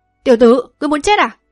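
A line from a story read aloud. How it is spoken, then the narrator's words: Angry old man shouting. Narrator (Vietnamese): Lão tức giận quát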